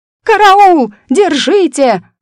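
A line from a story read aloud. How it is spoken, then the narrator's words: Shrill shriek. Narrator (Russian): раздался чей-то визгливый голос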